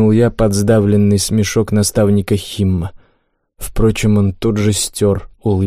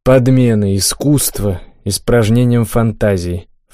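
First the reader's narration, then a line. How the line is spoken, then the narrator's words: Snorted reply. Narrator (Russian): фыркнул я в ответ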